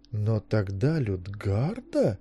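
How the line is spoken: Breaking off. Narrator (Russian): начала Пандора и замерла

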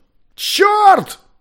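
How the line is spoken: Shout. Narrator (Russian): закричал Маккольм

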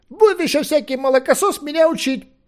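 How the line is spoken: Shouting. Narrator (Russian): обернулся и крикнул

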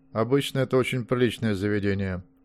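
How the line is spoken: Dry remark. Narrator (Russian): сухо заметил он

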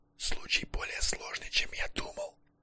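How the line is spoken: Sweaty whisper in ear. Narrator (Russian): зашептал ему в левое ухо взмокший психоаналитик

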